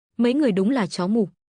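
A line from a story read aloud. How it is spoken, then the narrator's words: Cold. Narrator (Vietnamese): Lộ Thần lạnh lùng nói với đám binh lính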